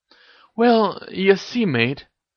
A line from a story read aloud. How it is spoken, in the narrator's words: stammered Ron